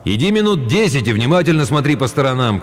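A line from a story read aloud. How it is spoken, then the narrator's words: Father shouting. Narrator (Russian): крикнул отец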